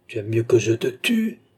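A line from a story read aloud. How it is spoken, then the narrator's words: Despairing exclamation. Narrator (French): s'écria Philippe, foudragé de désespoir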